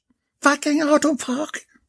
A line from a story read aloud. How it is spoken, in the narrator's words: Bella screeched